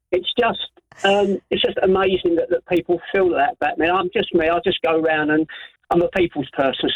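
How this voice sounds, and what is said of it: Emotional, choked-up voice. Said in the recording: “I'm getting a bit emotional”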